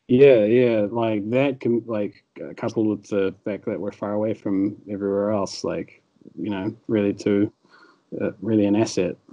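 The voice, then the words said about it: Slight American-Irish tinged Kiwi accent. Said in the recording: “You've got slight, it's almost like a slight accent, it's a bit American and a little bit like in there ... A bit of Irish. It sounds almost Irish.”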